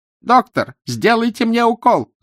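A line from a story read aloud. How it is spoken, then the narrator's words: Shouted. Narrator (Russian): закричал он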